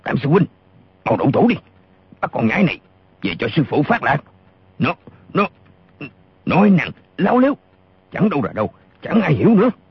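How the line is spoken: Furious loud shout. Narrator (Vietnamese): Gã lùng càng giận điên lên, y quát to

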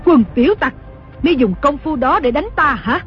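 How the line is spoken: Furious scolding shout. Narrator (Vietnamese): Đồng mổ cả giận quát mắng

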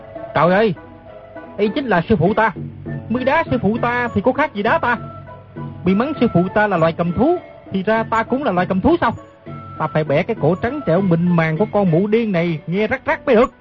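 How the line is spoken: Loud angry shout. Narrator (Vietnamese): quát lớn

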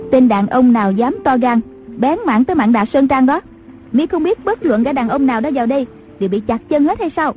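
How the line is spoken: Woman's distant shout. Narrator (Vietnamese): từ trong khoái thuyền có tiếng đàn bà quát vọng ra

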